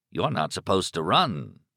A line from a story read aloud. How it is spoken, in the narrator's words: Raleigh returned gravely